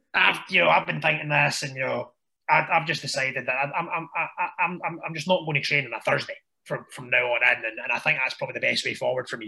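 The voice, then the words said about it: Strong put-on Irish accent. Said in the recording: “strong Irish accent.”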